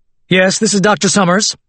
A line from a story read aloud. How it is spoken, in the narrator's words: said loudly into his phone